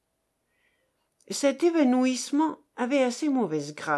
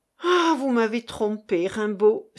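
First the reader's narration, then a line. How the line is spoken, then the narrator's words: Exclaiming. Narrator (French): s'écria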